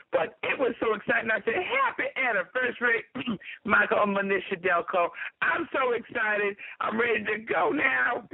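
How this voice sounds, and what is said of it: Slightly raspy voice. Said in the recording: “I'm a little raspy.”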